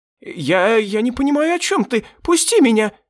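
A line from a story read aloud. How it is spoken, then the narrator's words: Terrified squeal. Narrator (Russian): взвизгнул он, с ужасом в глазах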